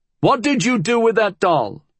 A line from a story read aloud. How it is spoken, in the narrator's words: He hollered